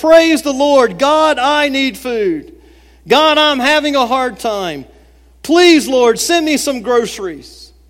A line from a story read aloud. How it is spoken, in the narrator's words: she shouted